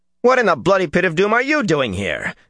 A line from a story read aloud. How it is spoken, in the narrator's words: Matt snapped